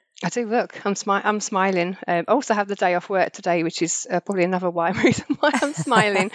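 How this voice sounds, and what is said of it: Sore, strained voice. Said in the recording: “my voice is really sore today”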